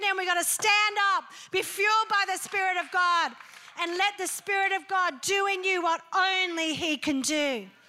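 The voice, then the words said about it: Yelling, loud preaching voice. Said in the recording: “Sorry, I'm yelling.”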